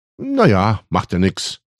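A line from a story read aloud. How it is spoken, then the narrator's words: Cheerful. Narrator (German): sagte Emil fröhlich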